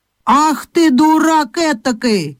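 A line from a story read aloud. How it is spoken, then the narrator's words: Old woman shouting. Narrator (Russian): закричала на него старуха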